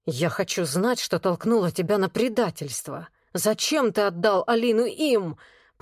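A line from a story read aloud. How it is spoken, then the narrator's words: Hissed. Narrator (Russian): прошипел Влад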